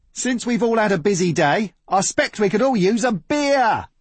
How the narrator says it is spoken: he hollered

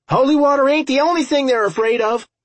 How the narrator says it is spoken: Milo shouted

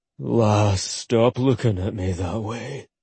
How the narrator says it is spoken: Groaning, Ollie said

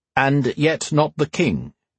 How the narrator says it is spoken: Sir Dietrich said firmly

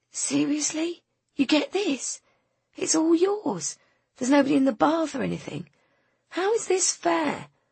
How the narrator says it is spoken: to squeak

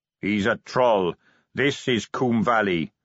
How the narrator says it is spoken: said the captain flatly

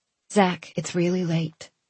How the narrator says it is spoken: I said, quietly, firmly, just as Edith would have

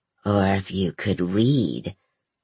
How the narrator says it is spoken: The first one cackled

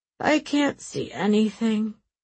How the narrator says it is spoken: Aram added and yawned

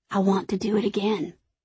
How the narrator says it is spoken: he whispers

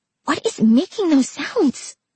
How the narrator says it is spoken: Trina hissed over at Simon

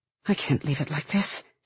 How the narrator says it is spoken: she murmurs, almost to herself

